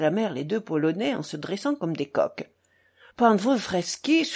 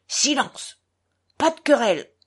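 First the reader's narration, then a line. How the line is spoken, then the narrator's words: Imperious shout. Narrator (French): cria impérieusement Grushenka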